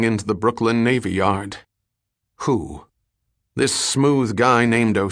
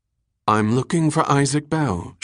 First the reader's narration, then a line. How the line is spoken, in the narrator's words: she said in her clear, musical voice